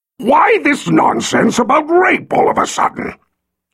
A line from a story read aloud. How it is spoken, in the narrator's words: he roared